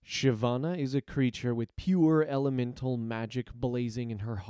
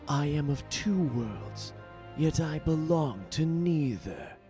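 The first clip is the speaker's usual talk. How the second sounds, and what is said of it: Mildly edgy character voice. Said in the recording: “my mildly edgy impersonation”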